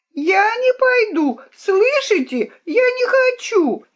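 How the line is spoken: Princess shrieking, struggling. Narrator (Russian): визжала, брыкаясь королевна

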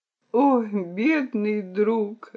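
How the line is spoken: Sobbing. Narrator (Russian): рыдал Миучура

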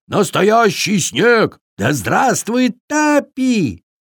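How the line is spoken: Loud shouting young fawn. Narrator (Russian): Громче всех, конечно, кричал олененок

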